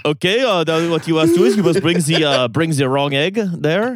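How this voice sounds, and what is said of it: Put-on Quebecois French accent. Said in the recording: “Your French accent is so Quebecois, man. ... It's tremendous.”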